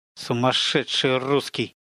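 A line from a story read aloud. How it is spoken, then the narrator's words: Spoken through gritted teeth. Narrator (Russian): процедила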